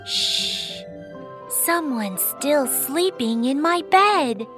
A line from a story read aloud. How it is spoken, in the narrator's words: Baby Bear said softly